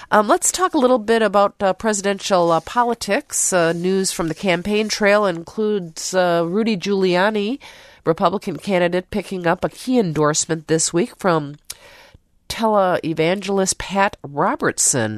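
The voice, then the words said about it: Stuffy congested voice. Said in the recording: “my stuffy voice ... I have a cold”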